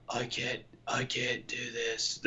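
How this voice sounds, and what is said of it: Raspy imitated character voice. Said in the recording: “my John impersonation... very raspy.”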